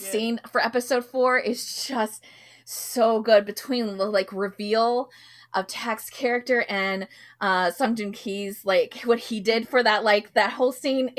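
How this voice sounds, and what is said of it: Voice giving out, strained. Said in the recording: “I'm losing my voice.”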